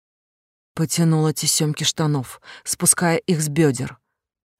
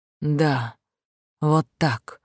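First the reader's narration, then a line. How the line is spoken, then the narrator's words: Hoarse rasp. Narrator (Russian): прохрипел Рейн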